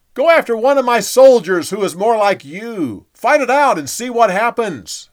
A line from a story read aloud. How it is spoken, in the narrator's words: He yelled back